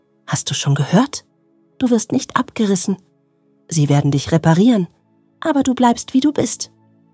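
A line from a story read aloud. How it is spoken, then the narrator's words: Excited whisper. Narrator (German): flüsterte er aufgeregt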